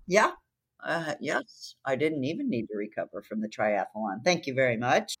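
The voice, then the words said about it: Raspy, sore-throated voice. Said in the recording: “Raspy ... I got a sore throat and I'm a little raspy”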